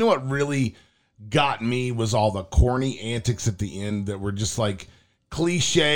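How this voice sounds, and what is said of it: Usual voice. Nothing is said of it.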